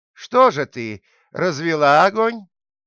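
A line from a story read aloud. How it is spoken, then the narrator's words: Sleepless old woman shouting again. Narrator (Russian): старуха не могла заснуть и закричала опять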